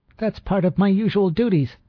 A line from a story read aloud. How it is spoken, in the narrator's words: she cried shrilly